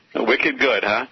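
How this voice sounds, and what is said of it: Put-on Boston accent. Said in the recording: “turn on your accent a little bit ... the real pure great Boston accents I never quite picked up”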